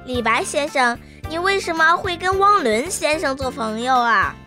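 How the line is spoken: Sudden loud question. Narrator (Chinese): 彤彤突然开口大声地问道

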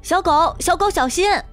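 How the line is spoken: Loud urgent shout. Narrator (Chinese): 小麦连忙大声喊

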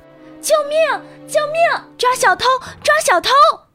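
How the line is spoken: Loud cry for help. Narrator (Chinese): 维基尼亚 大声呼喊

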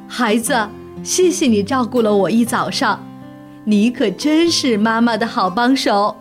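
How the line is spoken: Happy laughing mother. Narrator (Chinese): 熊妈妈立刻高兴起来了，笑着对他说

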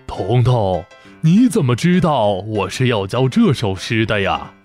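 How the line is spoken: Surprised, smiling old man. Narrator (Chinese): 老先生惊讶地看着彤彤，笑着点头说道

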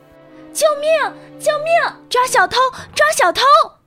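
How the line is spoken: Loud shouting. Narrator (Chinese): 维吉尼亚大声呼喊

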